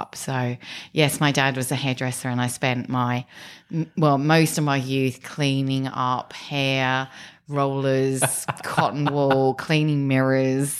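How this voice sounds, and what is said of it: English accent from Kent. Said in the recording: “judging by your accent, this was not in Australia ... a very small town in Kent called Strood”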